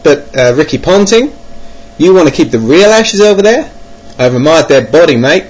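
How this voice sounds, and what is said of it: Bad put-on Australian accent. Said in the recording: “I'm speaking in a really bad Australian accent at the moment”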